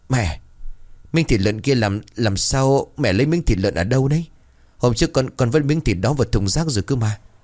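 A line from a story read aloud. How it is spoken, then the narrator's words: Trembling voice. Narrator (Vietnamese): Chị run rẩy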